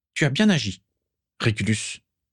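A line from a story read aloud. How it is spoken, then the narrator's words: Plain. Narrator (French): dit finalement Walburga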